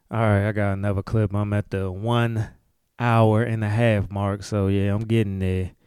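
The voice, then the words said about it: Tired, low-energy voice. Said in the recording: “my energy is starting to dwindle, if you can hear it in my voice.”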